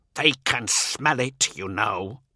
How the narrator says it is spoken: he hisses

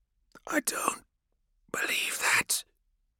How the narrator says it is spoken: Tethys whispered

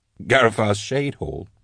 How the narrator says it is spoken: Drusha laughed nervously

